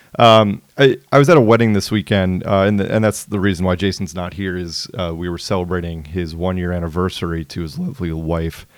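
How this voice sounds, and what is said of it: Hoarse, strained voice. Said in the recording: “if my voice is a little hoarse ... got to your boy's voice a little bit. It's still wrecked 2 days later.”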